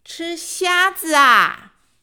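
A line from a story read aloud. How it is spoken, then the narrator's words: Loud repetition. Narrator (Chinese): 又大声的重复了一次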